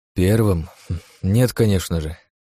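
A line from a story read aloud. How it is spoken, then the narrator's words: Sighing. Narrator (Russian): вздохнул я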